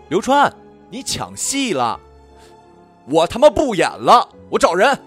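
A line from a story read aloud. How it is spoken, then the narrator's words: Shouting. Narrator (Chinese): 被导演同学喊了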